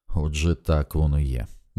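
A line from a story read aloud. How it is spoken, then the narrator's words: Quiet, gloomy. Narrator (Ukrainian): мовила вона тихим, понурим голосом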